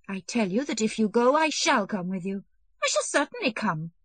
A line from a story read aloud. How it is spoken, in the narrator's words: said hastily and wrathfully